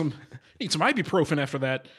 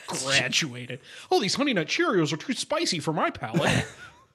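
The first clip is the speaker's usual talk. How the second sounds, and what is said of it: Imitates another person's voice. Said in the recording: “That's my Gary impression.”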